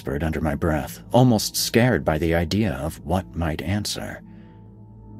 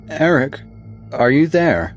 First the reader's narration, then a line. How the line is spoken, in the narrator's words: said, my voice louder this time